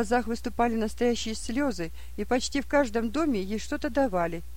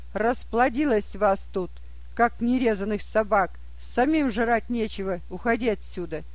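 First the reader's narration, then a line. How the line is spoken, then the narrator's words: Rude, harsh speech. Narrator (Russian): хозяин грубо сказал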